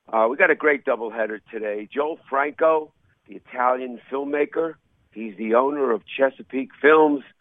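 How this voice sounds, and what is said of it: Nasal voice, New York accent. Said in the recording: “I'm a little under the weather today with a cold, so if I sound a little nasally, it's besides my New York accent.”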